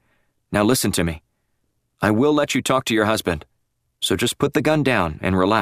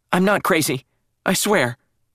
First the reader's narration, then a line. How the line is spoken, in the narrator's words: she added quickly, her voice seeming to gain strength